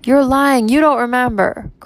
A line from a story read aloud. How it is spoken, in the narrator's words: cried the children